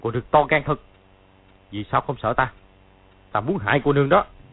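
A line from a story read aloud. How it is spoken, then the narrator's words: Sudden harsh growl. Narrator (Vietnamese): Đột nhiên gằn giọng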